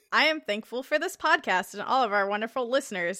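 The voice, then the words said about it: Radio announcer voice. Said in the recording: “I say that in like a radio voice”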